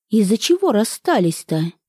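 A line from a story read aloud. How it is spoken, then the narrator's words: Furtive sigh, gathering resolve. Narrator (Russian): Света украдкой вздохнула, собираясь с решимостью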